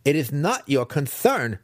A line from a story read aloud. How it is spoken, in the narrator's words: Massage snapped back